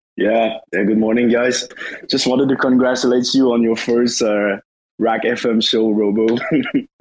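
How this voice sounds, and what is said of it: Deep, raspy, husky sick voice. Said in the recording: “Sorry about the voice. I think I got the flu or something ... I like the raspiness ... I'm into the deep raspy ... he's got that like that huskiness going on”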